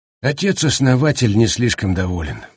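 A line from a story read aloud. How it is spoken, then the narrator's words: Grim. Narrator (Russian): мрачно сказал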